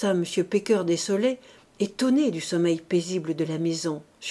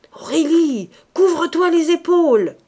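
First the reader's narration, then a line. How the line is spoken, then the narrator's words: Shouting. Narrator (French): criait la voix du président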